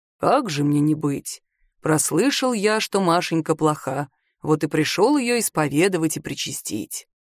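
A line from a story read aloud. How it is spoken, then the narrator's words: Deep bass voice. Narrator (Russian): ей густым басом ответили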